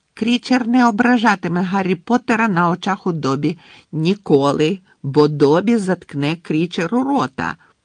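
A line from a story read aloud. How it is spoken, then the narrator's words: Shrill screeching. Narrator (Ukrainian): пронизливо верещав Добі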